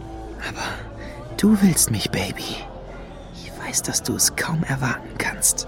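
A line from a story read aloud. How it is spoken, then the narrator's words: Seductive whisper. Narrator (German): flüsterte er Lady Luna zu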